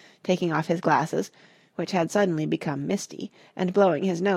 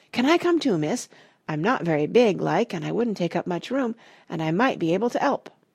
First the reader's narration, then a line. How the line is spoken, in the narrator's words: Ethelred said eagerly